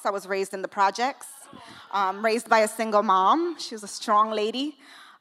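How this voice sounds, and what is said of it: New York Bronx accent. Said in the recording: “I don't know if you can hear the accent. I'm from the Bronx.”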